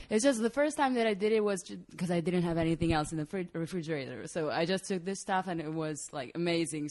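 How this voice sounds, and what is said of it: Speaks with an Italian accent. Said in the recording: “That's a great accent... Italian... voice... A beautiful accent.”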